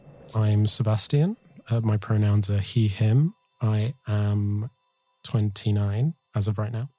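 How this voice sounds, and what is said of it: Very British accent. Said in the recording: “sounded so British, his accent, wow... he has this very British accent”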